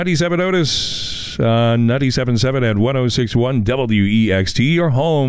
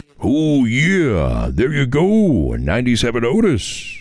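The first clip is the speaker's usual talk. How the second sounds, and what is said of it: Weak Macho Man impression. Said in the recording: “I don't have a very good Macho Man impersonation. Only the, oh yeah.”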